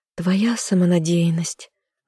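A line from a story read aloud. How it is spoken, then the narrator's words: Sighed. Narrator (Russian): вздохнула я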